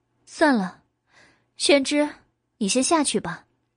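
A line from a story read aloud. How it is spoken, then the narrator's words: Sighing. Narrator (Chinese): 白姬叹了口气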